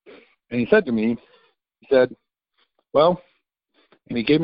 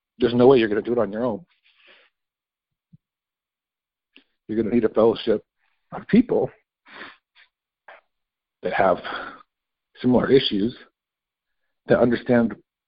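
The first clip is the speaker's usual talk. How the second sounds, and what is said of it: Choked-up, emotional voice. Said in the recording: “I'm getting choked up here a little bit”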